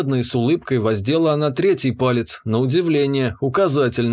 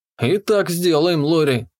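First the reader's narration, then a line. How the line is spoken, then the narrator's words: Snorting. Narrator (Russian): хмыкнул я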